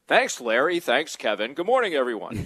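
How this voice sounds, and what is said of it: Impression of his own announcer voice. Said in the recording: “That's a very good impression of yourself.”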